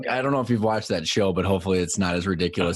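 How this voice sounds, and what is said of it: Minnesota accent. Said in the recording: “You still sound like the guy from Fargo, though... Minnesota in you”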